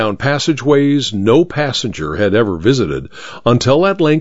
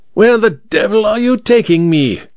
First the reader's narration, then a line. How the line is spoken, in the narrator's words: King Kong leaned close to shout the words into Amberley's ear